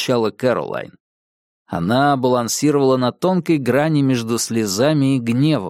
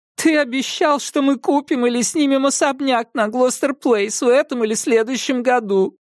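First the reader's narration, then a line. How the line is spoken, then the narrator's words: Whining. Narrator (Russian): прохныкала Кэролайн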